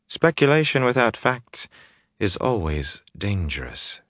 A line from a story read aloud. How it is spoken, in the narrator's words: she said calmly